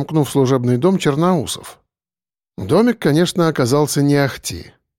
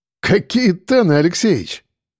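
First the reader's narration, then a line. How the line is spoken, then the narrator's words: Laughing. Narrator (Russian): рассмеялся майор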